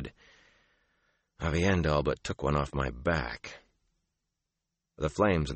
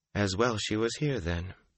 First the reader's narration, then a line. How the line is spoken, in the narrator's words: Moraine said calmly